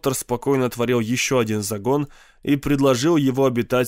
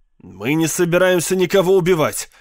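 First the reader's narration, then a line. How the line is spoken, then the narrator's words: Irritated. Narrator (Russian): раздраженно сказал пиарщик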